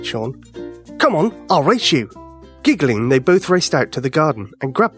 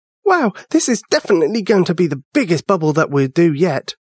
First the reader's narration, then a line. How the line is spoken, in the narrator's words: Ava chuckled